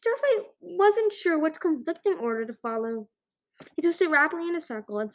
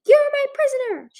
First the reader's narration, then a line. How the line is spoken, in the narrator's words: cried